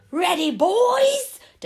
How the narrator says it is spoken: Dustbin shouted, grinning widely

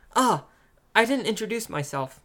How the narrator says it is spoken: the boy suddenly blurted out

